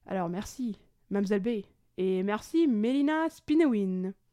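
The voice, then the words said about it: Put-on France French accent. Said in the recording (French): “Je vais le faire avec un accent français. En hommage à la francophonie.”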